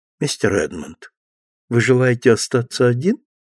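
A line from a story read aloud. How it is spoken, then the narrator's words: Gentle female voice. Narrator (Russian): она сказала ласковым голосом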